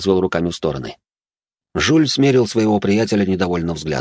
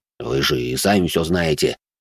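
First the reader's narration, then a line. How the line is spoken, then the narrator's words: Displeased grumble. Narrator (Russian): недовольно буркнул де Журиньи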